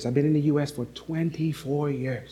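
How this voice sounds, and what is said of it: St. Lucian accent. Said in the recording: “I still speak like a St. Lucian. Certain words I say sound like a St. Lucian”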